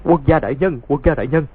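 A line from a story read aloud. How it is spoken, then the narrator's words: Frightened stammer. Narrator (Vietnamese): Chủ quán sợ hãi chỉ lắp bắp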